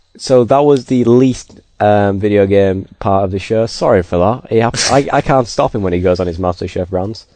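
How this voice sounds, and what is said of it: Northern English accent. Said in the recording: “Did you have to say it in such a northern way? ... I'm sorry that I have a northern accent.”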